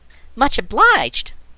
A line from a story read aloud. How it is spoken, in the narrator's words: laughed Trot